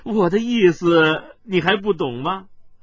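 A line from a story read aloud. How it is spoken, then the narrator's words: Grinning, laughing. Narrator (Chinese): 司徒笑嘻嘻的笑道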